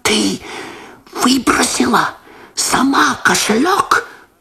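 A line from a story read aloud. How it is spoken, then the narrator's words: Whispered. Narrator (Russian): Прошептал Лосар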